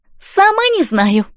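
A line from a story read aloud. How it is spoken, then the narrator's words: Cheerful. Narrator (Russian): весело отозвалась Элси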